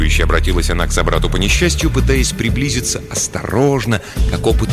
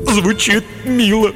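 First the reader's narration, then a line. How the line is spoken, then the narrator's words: Sobbing. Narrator (Russian): всхлипнул тупица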